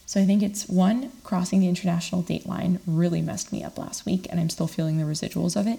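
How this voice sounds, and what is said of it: Scratchy voice. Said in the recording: “my voice is kind of scratchy”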